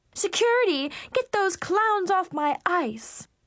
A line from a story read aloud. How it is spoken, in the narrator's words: Victoria shriek